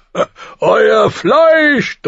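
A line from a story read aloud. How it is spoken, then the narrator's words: Thundering. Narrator (German): donnerte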